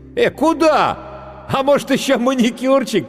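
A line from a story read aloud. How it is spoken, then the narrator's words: Shout, then loud laughter. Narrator (Russian): крикнул гример и расхохотался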